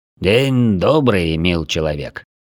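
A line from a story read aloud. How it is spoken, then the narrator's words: Deep bass voice. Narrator (Russian): пробасил Славан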